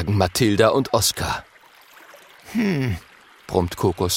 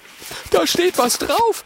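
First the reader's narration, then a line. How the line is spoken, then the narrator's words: Excited calling. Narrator (German): ruft Oskar aufgeregt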